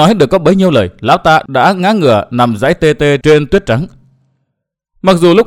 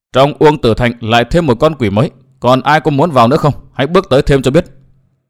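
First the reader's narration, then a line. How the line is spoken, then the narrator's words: Cold woman's voice. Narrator (Vietnamese): nàng áo đỏ lạnh lùng nói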